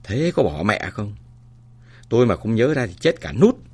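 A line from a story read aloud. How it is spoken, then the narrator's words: Panicked cry. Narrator (Vietnamese): Nhất hoảng hốt kêu lên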